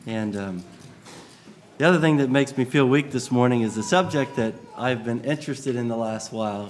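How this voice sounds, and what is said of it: Slightly congested voice from a cold. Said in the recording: “I have a little bit of a cold. ... It's pretty much stayed in my head”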